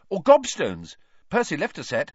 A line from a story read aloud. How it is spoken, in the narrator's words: he said hastily